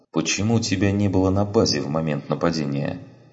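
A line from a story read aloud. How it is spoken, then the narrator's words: Gentle prompting question. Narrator (Russian): спросил Андерсон, мягко подталкивая ее к существенной части рассказа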